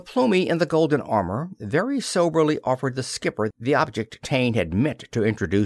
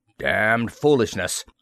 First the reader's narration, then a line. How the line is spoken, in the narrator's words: rumbled the skipper